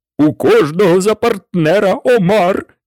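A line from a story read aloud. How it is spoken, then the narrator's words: Shouting. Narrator (Ukrainian): закричав Грифон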